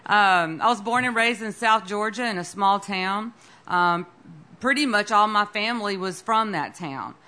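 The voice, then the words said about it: Slight American southern accent. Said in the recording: “I have a little bit of a southern accent, not quite a Texas accent.”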